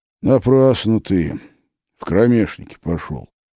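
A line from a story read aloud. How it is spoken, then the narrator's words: Quiet reproach. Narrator (Russian): с укором негромко сказал Филипп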